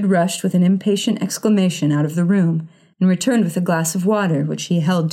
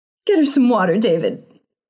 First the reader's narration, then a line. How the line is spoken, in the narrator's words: sobbed her mother